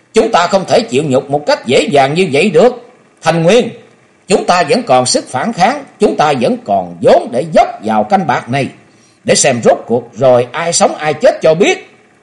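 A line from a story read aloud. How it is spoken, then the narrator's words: Frenzied roar. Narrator (Vietnamese): Gào lên một tiếng như con hổ cái phát cuồng, nói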